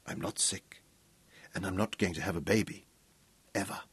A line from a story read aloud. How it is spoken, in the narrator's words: her voice sinking to a throaty whisper